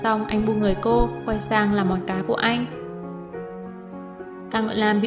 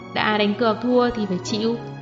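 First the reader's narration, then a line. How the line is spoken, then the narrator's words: Smiling, teasing. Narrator (Vietnamese): Doãn Tắc mỉm cười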